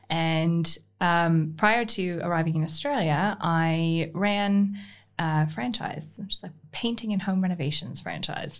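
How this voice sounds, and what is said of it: Mixed Canadian and Australian accent. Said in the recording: “I sound a little bit confused, my accent ... I'm Canadian born. I call it Australian adoptee.”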